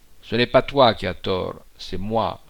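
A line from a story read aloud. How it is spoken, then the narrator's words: Cold, resumed speech. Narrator (French): reprit-il froidement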